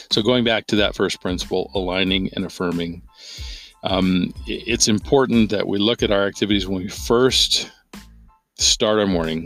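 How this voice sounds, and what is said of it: Strained, sick-sounding voice. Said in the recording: “You can probably hear in my voice that the cold that I've been battling for 2 weeks is kind of getting the better of me... I'm trying to keep my voice together here”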